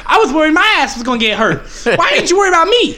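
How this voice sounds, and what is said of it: Imitates another person's voice. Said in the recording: “10 out of 10 ... Impression ... It was spot on ... you have a pretty good Tyson impression”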